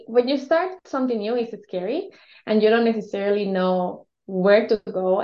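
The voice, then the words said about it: Hispanic accent. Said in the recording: “with an accent, that was Hispanic”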